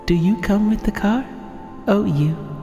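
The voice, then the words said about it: Creepy whispery ASMR-style voice. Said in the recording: “that was creepy. So that was my attempt at an ASMR voice. ... That was disturbing and disturbingly accurate. ... a little bit of Michael Jackson there by the sound of it.”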